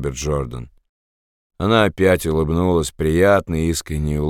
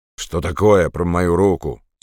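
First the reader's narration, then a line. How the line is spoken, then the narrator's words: Angry interruption. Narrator (Russian): сердито перебил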